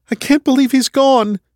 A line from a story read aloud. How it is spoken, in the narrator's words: she cried, tears instantly freezing under her eyes